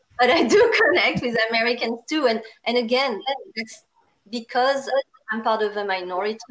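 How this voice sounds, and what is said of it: Strong French accent. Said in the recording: “the strongest French accent you can find”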